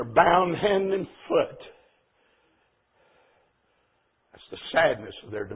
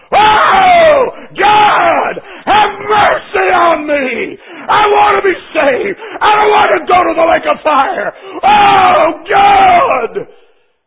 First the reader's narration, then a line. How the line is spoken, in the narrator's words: untold billions of people screaming at the top of their lungs